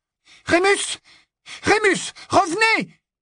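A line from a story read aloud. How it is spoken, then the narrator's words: Crying out. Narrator (French): s'écria Hermione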